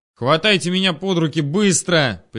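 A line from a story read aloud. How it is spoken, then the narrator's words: Sharp shout. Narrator (Russian): прикрикнул я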